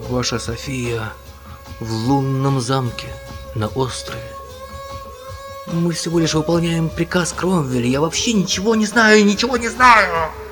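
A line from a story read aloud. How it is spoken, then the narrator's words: Muffled villain's voice. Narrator (Russian): глухо проговорил негодяй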